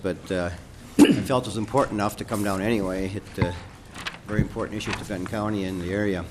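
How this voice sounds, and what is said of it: Voice affected by a cold. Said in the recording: “I have a cold today, so excuse my voice”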